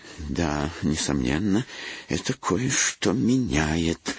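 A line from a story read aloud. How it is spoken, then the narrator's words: Quiet. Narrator (Russian): негромко начал Бернард Блейк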